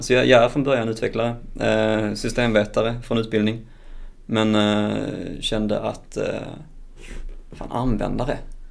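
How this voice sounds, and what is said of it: Swedish Skåne regional accent. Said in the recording (Swedish): “Jag är skånsk... Så har överseende med dialekten”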